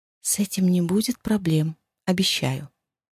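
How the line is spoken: Shy submissive whisper. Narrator (Russian): зарделась, но покорно прошептала

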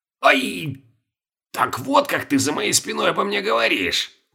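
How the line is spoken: Satisfied hiss. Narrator (Russian): удовлетворенно прошипел Петр Иванович

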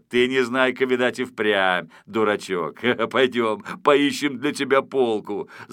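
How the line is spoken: Amused, just after laughing. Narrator (Russian): Закончив смеяться, сказал

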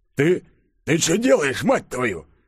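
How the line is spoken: Surprised hiss, soldier. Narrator (Russian): Удивленно прошипел красноармеец

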